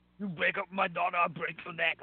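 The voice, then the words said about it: Poor imitation of another person's voice. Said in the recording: “worst Schwarzenegger impersonation ever... I am the worst impersonation”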